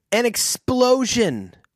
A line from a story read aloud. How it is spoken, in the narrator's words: Joe cried out